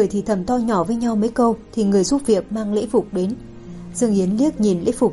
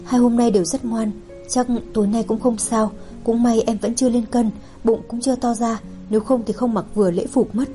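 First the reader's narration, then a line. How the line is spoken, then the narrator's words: Soft reply. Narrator (Vietnamese): Dương Yến cũng nhỏ giọng đáp lại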